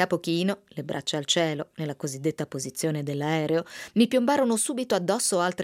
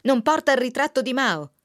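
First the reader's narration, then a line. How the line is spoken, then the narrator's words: Indignant yell. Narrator (Italian): uno degli attivisti urlò indignato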